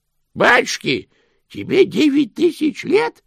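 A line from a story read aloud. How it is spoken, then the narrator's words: Exclamation. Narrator (Russian): воскликнул Грош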